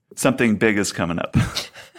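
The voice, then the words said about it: Sexy, seductive voice. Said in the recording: “you have to say it in your sexy voice”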